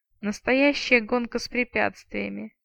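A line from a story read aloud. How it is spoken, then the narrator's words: Groaning. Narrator (Russian): стонал вампир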